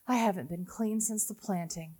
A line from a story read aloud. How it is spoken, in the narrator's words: she sighs